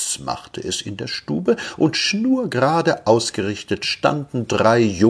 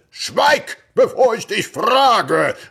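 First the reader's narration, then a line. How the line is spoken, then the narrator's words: Terrifying deep bass shout. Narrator (German): rief der Vater in erschrecklichem Bass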